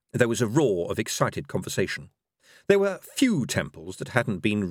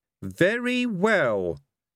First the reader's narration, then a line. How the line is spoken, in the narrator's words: said one of the objectors haughtily